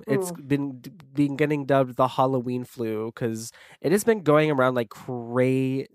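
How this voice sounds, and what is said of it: Sick voice from the flu. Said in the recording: “I'm coming off of having the flu. ... I don't know if you can probably tell in my voice.”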